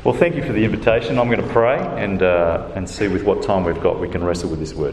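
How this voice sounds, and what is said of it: Accent far from standard English. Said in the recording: “Who has so far struggled with my accent? ... I'm never sure whether I'm just so far out of being proper English that you all struggle.”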